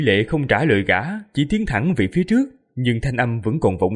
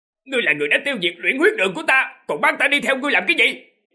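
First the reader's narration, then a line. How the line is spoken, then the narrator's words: Trembling loud shout. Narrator (Vietnamese): Giả cổ run rẩy, lập tức hét to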